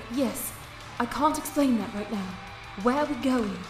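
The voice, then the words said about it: Female British accent. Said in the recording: “A voice with a female British accent”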